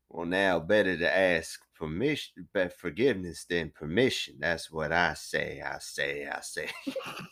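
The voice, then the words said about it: Foghorn Leghorn impression. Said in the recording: “Foghorn Leghorn. My accents change constantly.”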